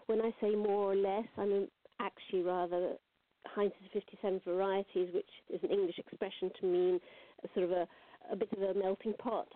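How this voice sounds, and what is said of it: English accent. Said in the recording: “I'm English, well, more or less English, as you can probably tell from my accent.”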